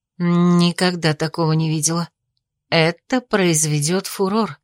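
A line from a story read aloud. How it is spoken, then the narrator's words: Admiring whisper. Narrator (Russian): восхищенно зашептала Рея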